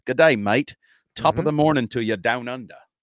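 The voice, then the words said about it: Mixed Irish-Australian-English put-on accent. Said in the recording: “That was Irish and Australian. ... And kind of English. ... accent train wreck”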